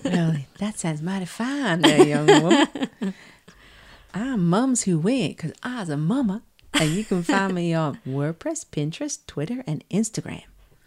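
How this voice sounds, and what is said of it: Put-on Southern American accent. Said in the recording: “Why did we go American and Southern?”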